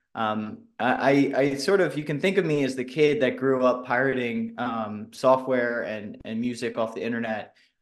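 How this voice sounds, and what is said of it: American accent. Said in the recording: “if you haven't figured out by my accent already, I'm an American.”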